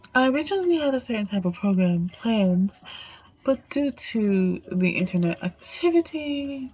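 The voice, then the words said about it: Sick, changed voice. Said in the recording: “I'm a little unwell ... a little sick, so that's why you hear the change in my voice.”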